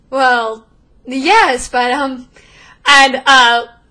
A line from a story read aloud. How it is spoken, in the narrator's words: Lorna shouts